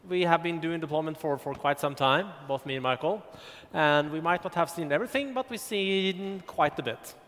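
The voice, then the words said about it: Swedish-accented English. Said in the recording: “As you can hear from my accent, I don't live in Stockholm, speaking English. I live in Halmstad on the west coast”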